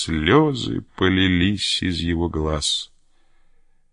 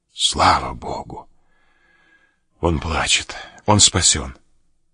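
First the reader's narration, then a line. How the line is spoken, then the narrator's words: Relieved sigh, then speech. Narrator (Russian): врач облегченно вздохнул, сказал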